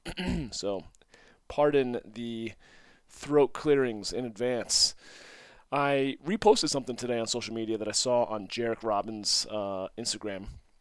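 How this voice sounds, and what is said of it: Scratchy voice, under the weather. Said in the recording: “I'm a little under the weather ... my voice is a little scratchy”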